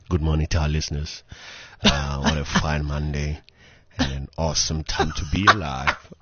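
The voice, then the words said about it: Put-on radio voice. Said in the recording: “In your new birthday voice, ... I must do it with my radio voice.”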